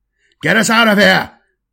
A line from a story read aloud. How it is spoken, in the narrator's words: roared the Inquisitor captain